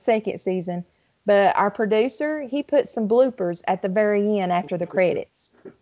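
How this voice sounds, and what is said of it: Kentucky accent. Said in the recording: “I love that Kentucky accent.”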